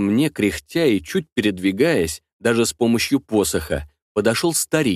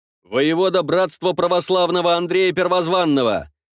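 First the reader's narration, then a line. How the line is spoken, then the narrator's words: Proud, deliberately loud. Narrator (Russian): отвечал я горделиво, нарочито громко, чтобы услышали все присутствующие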